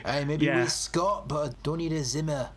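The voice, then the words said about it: Failed Scottish accent, half German. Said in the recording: “That's not an accent. What was that? ... Half German.”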